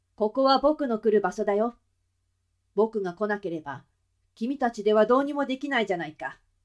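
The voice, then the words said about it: Crisp male voice. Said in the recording (Japanese): “それは歯切れのよい男の声でした。 ... 男の声で喋っているのです。”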